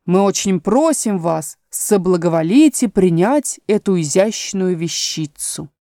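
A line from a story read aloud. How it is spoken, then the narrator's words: Solemn. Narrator (Russian): Додо торжественно протянул ей наперсток и сказал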